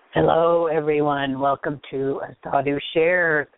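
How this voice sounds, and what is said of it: Hoarse, froggy voice. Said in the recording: “pardon my voice. I've had a cold and coughing and stuff. And so, anyway, I'm a little froggy.”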